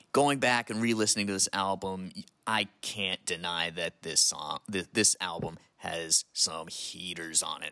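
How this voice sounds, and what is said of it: Rich accent, dulcet tones. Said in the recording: “take in that rich, rich accent. Rich. ... that beautiful voice, those dulcet tones”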